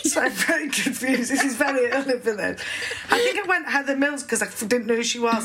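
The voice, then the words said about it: Regional British accent. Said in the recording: “It sounds nice in your accent, actually.”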